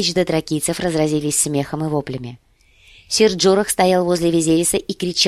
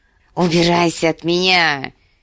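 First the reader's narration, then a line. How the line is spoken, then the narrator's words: Hissed. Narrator (Russian): прошипел Визерис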